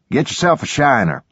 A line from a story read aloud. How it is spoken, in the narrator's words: Garrett said